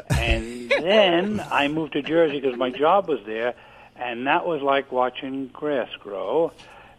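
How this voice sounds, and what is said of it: Non-Floridian regional accent. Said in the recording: “Your accent doesn't sound Floridian to me.”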